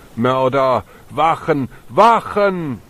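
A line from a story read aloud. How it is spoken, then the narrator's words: Deep male-voiced shout. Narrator (German): sie mit einer tiefen Männerstimme rief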